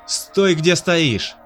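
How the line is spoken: Shouting. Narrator (Russian): крикнул командир квада

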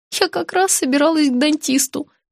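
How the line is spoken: Heavy sigh. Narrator (Russian): тяжело вздохнула я

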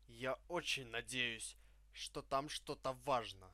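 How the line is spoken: Grumbled. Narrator (Russian): проворчал я

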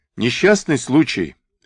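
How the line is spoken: Overly cheerful. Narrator (Russian): как-то уж чересчур бодро ответил Алексей

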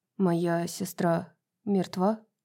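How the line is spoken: Quiet question. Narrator (Russian): тихо спросил Эмиль

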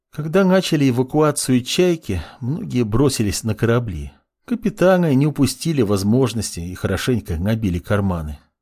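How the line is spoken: Sad. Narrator (Russian): грустно произнесла Лина

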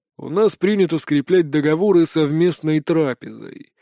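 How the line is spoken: Grumbled. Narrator (Russian): проворчал Гонтон

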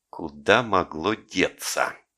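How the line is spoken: Hissed. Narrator (Russian): прошипел он

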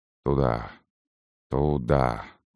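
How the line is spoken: Soldier's whisper. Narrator (Russian): прошептал преображенец

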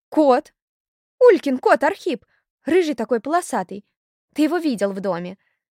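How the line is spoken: Excited exclamation. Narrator (Russian): воскликнула Зойка

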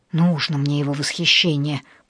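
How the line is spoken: Grumbling. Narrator (Russian): пробурчала

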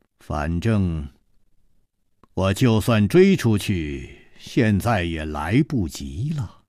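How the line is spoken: Indifferent, flat. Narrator (Chinese): 陆小凤 淡淡地说了一句

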